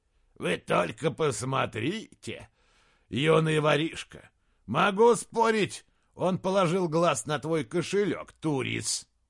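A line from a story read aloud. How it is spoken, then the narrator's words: Soldier growling. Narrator (Russian): коренастый легионер с темной бородой, которого звали Турис, прорычал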